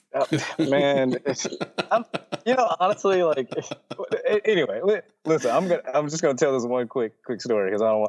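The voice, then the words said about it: Virginia/Tennessee Southern American accent. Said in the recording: “My Virginia slash Tennessee accent is just the worst.”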